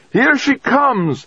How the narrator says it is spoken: Dezhurova shouted

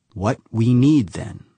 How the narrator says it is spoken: she said slowly

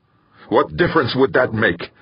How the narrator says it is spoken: Bracknell snapped

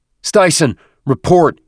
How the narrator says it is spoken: he shouted into his mic

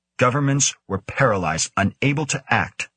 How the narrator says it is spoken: Beach said firmly

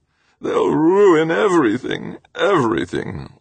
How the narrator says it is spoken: Ulrich moaned

